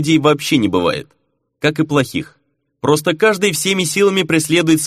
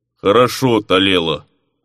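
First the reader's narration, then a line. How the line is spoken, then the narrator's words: Sullen bass. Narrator (Russian): угрюмо пробасил тот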